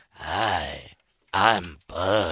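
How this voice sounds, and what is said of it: Creepy imitation of another person's voice. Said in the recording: “my Buzz Aldrin impression ... it's the creepiest thing you've ever”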